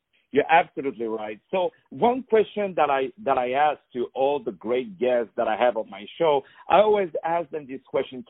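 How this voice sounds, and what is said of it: Non-native English accent. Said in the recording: “someone like me who has English as his second language, as you can hear from my beautiful, gorgeous, not sexy at all accent”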